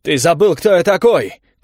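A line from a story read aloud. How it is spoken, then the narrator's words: Shout. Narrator (Russian): крикнул Эрик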